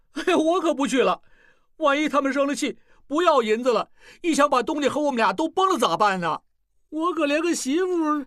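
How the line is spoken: Crying out. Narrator (Chinese): 小栓叫起来

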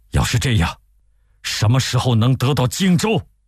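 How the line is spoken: Angry. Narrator (Chinese): 孙权愤怒地说

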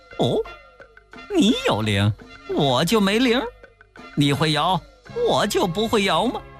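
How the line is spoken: Laughing. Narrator (Chinese): 悟空笑了

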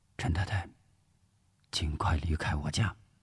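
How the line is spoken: Whispering. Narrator (Chinese): 吴石悄声说

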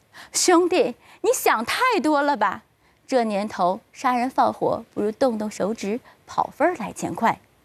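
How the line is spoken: Hearty laughter. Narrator (Chinese): 对方听了哈哈大笑

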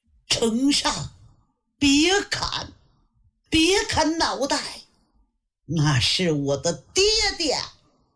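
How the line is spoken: Shouting. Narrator (Chinese): 喊

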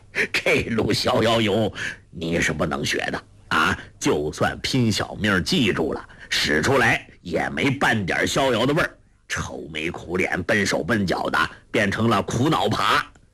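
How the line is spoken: Hearty laughter. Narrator (Chinese): 洪七公哈哈大笑说道

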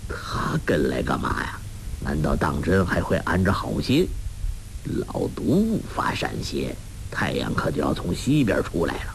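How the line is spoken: Inner muttering. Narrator (Chinese): 洪七公心下嘀咕

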